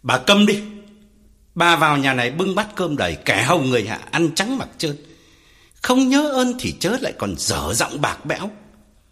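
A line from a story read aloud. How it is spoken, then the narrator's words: Loud furious shout. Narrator (Vietnamese): Ông Phú tái mặt quát lớn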